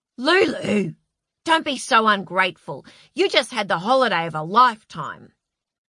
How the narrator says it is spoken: Joel snapped

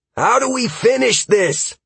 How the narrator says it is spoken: Halcyon called out

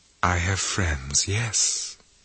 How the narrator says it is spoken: she said almost dreamily

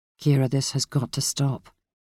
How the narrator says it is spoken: he said gently

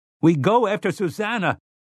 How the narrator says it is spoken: Eddie shouted

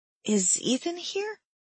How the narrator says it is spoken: asked in a small voice

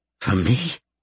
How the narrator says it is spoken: He asked, his voice breaking

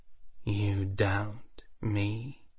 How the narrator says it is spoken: Valeria asked in a soft voice

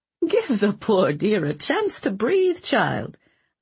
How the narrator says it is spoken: Leona said with a soft chuckle

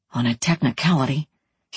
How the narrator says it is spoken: he whispered

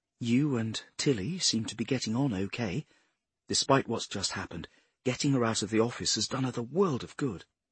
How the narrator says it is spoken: Flynn said quietly

